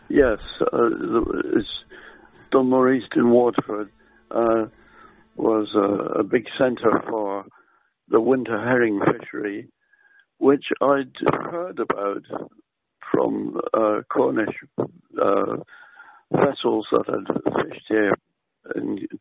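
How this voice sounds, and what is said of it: English accent. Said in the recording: “a wonderful English accent”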